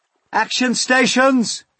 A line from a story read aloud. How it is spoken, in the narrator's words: James shouted